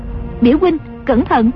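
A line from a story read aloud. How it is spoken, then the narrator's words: Alarmed cry. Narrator (Vietnamese): Dương Ngữ Yên lại kêu lên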